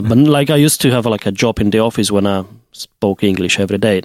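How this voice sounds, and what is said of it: Polish-accented English. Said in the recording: “my accent is, like, more Polish than it was maybe a few years ago ... back to being more Eastern European”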